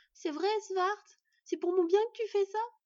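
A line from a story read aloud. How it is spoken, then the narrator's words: Asking, then sobbing loudly. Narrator (French): s'enquit Murk avant de se mettre à sangloter bruyamment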